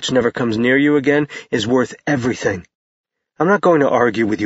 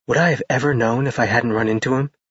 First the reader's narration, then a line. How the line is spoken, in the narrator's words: She whispered